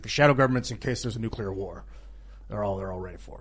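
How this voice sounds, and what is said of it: Deep, gravelly, serious imitated voice. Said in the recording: “That was a good impression. It wasn't too bad. ... you got down there. You got deep. ... deep really and kind of gravelly. ... a little gravelly. ... Really, real serious. Real serious.”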